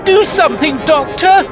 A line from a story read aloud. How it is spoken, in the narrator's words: cried Polly